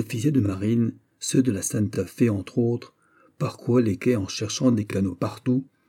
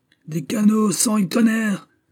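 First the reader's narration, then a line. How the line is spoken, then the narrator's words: Deafening repeated shout. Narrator (French): répétait d'une voix étourdissante l'illustrissime Don Antonio Barzone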